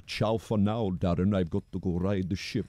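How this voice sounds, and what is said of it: Bad put-on Italian accent. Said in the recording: “absolutely sexy Italian man ... that was a terrible Italian accent.”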